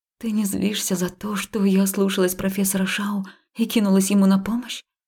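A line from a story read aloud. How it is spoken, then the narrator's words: Breathy words into ear. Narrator (Russian): выдохнула я ему на ухо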